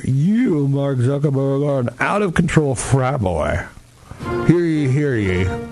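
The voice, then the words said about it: Put-on English accent, sounds Southern. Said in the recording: “that was actually my English accent, believe it or not. It sounds a little bit like my Southern accent”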